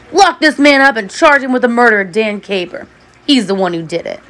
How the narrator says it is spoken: Prosecutor Stanton shout at Charles

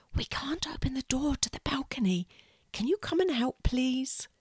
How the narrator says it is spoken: she whispers

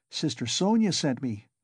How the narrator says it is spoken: answered the girl, smiling still more brightly

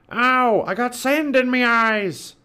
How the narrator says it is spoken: Pinky whined

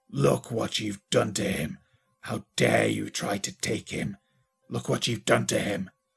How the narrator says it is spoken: almost growling

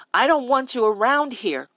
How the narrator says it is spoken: the old man shouted

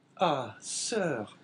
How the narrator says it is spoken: said Caderousse with a sigh

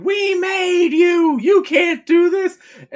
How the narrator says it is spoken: one of the waitress just starts losing it and goes outside screaming

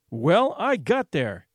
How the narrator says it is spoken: he announced fiercely

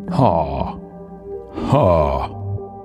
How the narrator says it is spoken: the giant growled

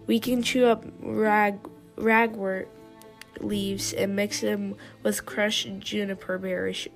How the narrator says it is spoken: rasped Yellowfang

